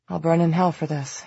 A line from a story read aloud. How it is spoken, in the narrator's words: he muttered in a low voice